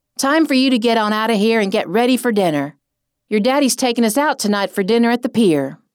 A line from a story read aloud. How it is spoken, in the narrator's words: my mother yelled